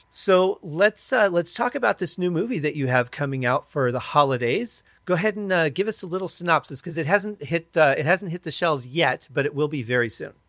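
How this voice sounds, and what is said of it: Weak voice, sounds like a cold. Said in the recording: “I've sounded like I've had a cold ... my voice is a little weak”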